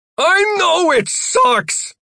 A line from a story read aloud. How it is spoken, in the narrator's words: Jeff shouted